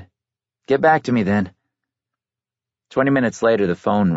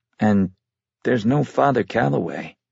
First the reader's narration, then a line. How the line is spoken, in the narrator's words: he sighed